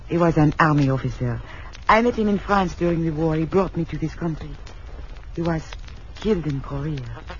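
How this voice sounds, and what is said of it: French accent. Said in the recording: “your accent, it's French”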